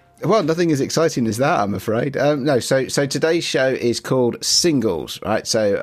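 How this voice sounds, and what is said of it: Croaky, hoarse voice. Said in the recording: “I am a little bit croaky this week ... the most sexy voice you've ever had”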